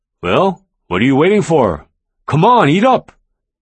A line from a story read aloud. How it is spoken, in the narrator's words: my father-in-law boomed